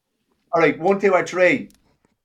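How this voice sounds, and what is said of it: Shouting loudly. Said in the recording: “I don't know why I'm shouting... Yeah, shouting so he can hear you better.”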